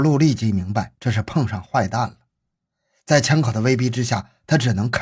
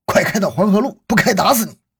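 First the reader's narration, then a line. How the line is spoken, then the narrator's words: Furious low growl. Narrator (Chinese): 一个二十多岁的男子气急败坏地低吼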